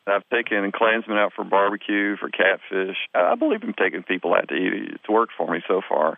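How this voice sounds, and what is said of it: Southern American accent. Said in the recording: “unlike some carpetbagger Yankee reporter coming down to Mississippi ... your accent”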